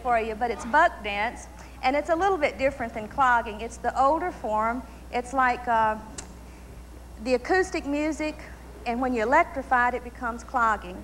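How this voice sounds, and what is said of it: Southern American accent. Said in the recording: “for all you folks that don't understand a Southern accent”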